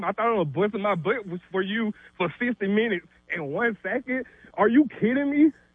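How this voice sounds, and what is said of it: Out of breath, ranting. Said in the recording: “out of breath ... is out of breath.”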